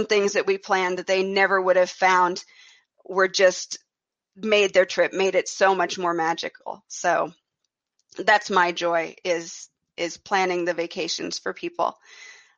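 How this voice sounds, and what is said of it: American Midwestern accent. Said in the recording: “I'm not from Ireland. You can tell from my accent. ... I actually am from the very middle of the United States.”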